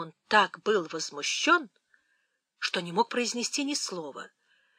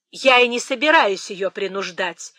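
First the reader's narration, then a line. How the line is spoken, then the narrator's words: Sharp reply. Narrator (Russian): резко отвечала миссис Норрис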